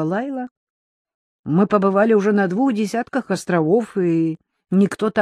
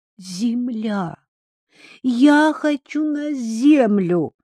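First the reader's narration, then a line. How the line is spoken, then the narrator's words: Young girl pleading. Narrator (Russian): 13-летняя сестра Джея Лайла взмолилась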